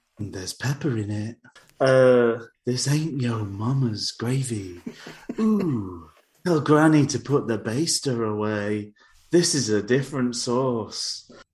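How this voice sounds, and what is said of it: Put-on sultry, sexy voice. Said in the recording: “I don't know whether you can tell by my sexy voice.”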